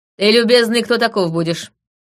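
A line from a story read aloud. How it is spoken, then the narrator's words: Grim question. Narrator (Russian): мрачно спросила я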